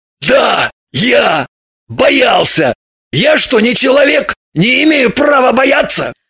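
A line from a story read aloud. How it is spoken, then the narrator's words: Barking shout. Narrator (Russian): рявкнул Шульгин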